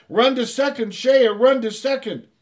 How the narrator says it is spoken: Everyone yelled

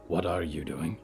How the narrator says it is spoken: Yuretsi whispered

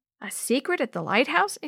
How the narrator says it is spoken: exclaimed Chris

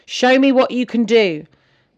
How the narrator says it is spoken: Gary strode into the family room and bellowed

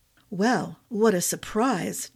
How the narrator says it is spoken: Jago murmured

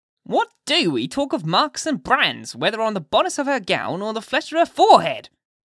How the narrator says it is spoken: cried another female, the ugliest, as well as the most pitiless of the self-constituted judges

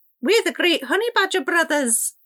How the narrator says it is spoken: Salty mimicked in a silly, squeaky voice

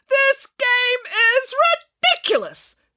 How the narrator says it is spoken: yelled Nanny Piggins

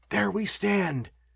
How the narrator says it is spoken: cried Walter enthusiastically

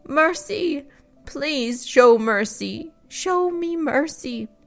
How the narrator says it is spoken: sobbed

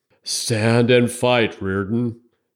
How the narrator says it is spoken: he wheezed

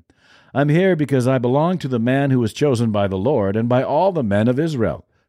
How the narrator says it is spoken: Hushai replied

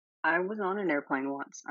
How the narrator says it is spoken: I mumbled

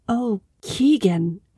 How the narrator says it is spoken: Aisling whispered that night

